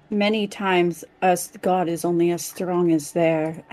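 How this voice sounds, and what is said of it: Slips into another player's accent. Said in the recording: “I don't know why I'm absorbing your accent, Calden. Stop it. ... He rubs off on you, man. ... Everybody just starts talking the accent.”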